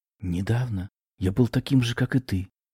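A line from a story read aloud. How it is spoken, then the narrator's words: Sad little man answering. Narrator (Russian): печально вдохнув, ответил человечек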